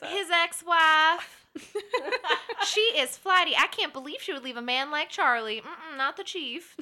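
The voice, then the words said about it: Sassy put-on Southern accent. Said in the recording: “like a Southern accent ... these like sassy women in my head, like in the diner sipping coffee ... give me that Southern accent”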